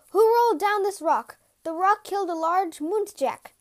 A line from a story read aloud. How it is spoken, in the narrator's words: shouted in a large, loud voice